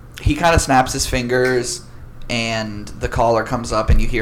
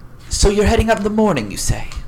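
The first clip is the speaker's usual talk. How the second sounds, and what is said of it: Character voice with put-on accent. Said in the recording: “He has a different accent every time”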